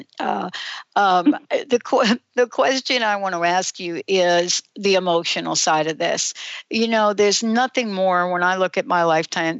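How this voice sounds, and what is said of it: New York accent. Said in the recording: “I have this New York accent.”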